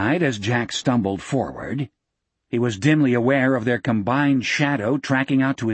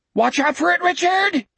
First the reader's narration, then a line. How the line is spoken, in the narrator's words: Jack screamed